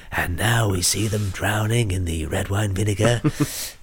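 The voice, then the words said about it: Weak David Attenborough impression. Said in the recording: “It's not a great impression, I'm not going to lie. ... No, it's David Attenborough. ... It's not good, is it? ... It's not good.”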